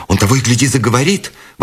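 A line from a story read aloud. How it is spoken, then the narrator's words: Exclamation. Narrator (Russian): воскликнула Бет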